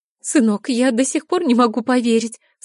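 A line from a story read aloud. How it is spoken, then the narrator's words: Mother sobbing. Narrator (Russian): всхлипывает мама Игоря Наталья Андреевна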